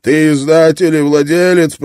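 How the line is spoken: Shouting. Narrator (Russian): прокричал он

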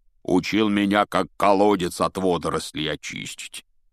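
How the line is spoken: Grumbling. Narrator (Russian): проворчал Хагрид

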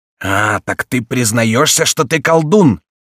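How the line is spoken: Furious roar. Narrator (Russian): проревел с бешенством Гриф

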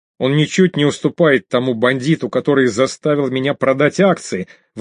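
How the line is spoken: Indignant shouting. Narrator (Russian): возмущенно кричал невидимый собеседник

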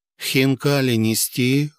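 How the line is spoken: Indifferent inquiry. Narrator (Russian): равнодушным голосом осведомился официант

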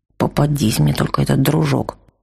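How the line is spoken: Sullen mutter. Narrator (Russian): угрюмо буркнул он

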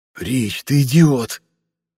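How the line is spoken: Hiss. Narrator (Russian): прошипел Хань

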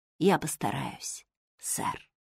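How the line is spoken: Trembling whisper. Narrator (Russian): Джо шепнула в ответ дрожащими губами

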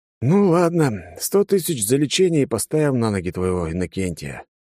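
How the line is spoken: Sigh. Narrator (Russian): вздохнул я

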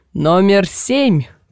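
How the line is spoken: Man shouting. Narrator (Russian): крикнул мужчина

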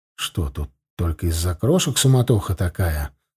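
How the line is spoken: Quiet question. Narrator (Russian): спросил я его тихонько

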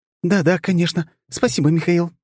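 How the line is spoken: Squeaky. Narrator (Russian): пропищала она

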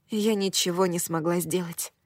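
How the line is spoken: Whispered. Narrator (Russian): прошептала я

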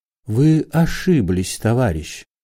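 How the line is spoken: Very quiet. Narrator (Russian): сказал Корейко очень тихо

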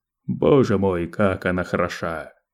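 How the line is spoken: Exclaiming. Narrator (Russian): воскликнул он

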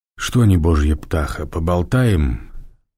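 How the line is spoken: Purring voice. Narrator (Russian): промурлыкал собеседник

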